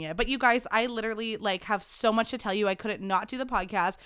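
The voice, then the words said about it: Recovering voice, slightly squeaky. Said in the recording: “my voice was completely gone ... it's still a little squeaky”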